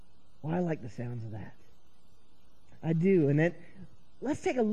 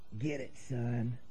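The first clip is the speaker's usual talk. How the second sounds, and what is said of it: Put-on Southern accent. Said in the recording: “in his best southern accent”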